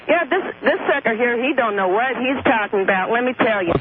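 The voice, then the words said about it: Fake Southern accent. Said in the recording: “you got a fake southern accent ... if you're going to come on with a bad voice”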